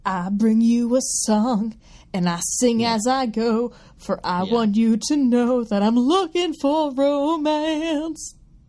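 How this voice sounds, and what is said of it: Imitates another person's singing voice. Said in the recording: “It's my Elton John impression.”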